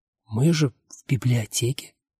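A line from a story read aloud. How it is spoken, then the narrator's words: Whisper. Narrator (Russian): прошептала она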